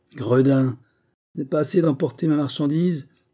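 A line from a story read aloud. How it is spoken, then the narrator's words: Angry shout. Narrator (French): s'écrie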